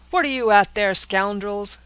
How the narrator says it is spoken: cried Lieutenant Mason

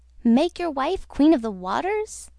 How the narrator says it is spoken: exclaimed the goldfish

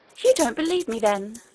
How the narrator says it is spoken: exclaimed the princess, astonished and angry

